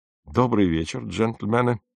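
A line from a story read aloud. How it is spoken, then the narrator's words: Gloomy. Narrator (Russian): мрачно произнес он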